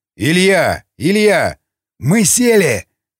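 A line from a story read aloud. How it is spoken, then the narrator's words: Ogre shouting. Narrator (Russian): крикнул, наконец, людоед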